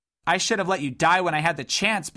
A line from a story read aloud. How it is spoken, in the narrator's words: blared Dodd angrily, feeling a surge of energy